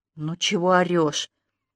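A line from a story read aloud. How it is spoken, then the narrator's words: Indifferent contemptuous, through teeth. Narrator (Russian): Старательно, сохраняя безразлично презрительный тон, процедила Танька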